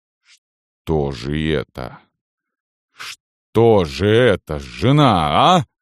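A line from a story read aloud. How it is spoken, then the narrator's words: Strained unnatural voice. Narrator (Russian): заговорил он, наконец, каким-то неестественным голосом, голосом, в котором слышалось все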